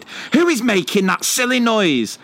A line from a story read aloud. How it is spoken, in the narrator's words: Without a second thought, she shouted